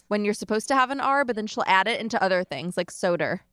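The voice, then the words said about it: Long Island accent. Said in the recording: “It's like an annoying Long Island voice ... I just have my natural Long Island accent”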